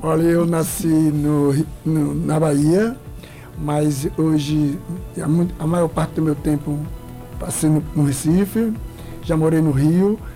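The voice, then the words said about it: Mixed Brazilian northeastern accent. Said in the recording (Portuguese): “meu sotaque é nordestino, mas é meio misturado”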